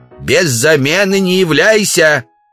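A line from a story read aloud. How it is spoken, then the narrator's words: Woman shouting from afar. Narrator (Russian): Жена Удалова, Ксения, крикнула им вслед со двора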